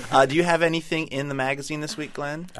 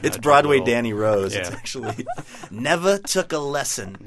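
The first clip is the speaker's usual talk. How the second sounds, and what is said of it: Poor Woody Allen impression. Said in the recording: “terrible Woody Allen impression”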